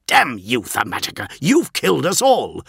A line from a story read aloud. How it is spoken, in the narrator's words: spat Tyro